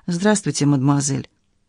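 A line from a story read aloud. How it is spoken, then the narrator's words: Deep bass voice. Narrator (Russian): Она пробасила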